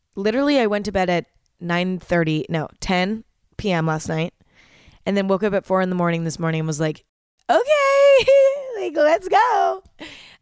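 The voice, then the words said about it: Groggy, nasal, fading voice. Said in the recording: “I'm still feeling a little bit groggy ... my voice is going, like I'm losing my voice. It sounds a little bit nasally.”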